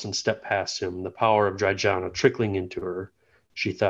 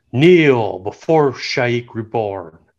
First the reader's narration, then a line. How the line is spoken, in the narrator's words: Tobolkai bellowed